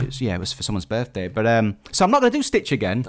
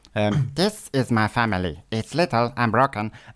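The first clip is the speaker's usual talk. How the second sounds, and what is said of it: Stitch cartoon character voice impression. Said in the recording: “my best impression recently, which is Stitch”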